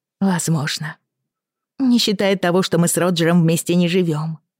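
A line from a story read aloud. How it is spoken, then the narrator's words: Sighing. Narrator (Russian): вздохнула Брианна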